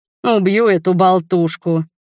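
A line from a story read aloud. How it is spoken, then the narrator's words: Mock growl. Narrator (Russian): притворно зарычал Ральф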